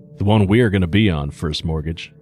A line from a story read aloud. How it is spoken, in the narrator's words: he replied with a slight chuckle